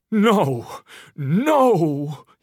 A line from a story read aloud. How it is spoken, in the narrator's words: cried